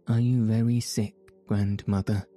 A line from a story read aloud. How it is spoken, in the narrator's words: asking anxiously